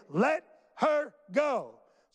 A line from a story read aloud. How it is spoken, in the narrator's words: He yelled at them again, saying